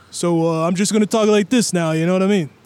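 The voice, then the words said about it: Tracy Morgan impression, New York Italian. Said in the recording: “you're just being a stereotype of an Italian guy in New York. ... I was going more for Tracy Morgan.”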